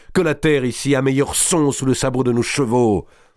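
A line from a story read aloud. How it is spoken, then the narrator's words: Shouting into wind. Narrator (French): cria-t-il dans le vent de la course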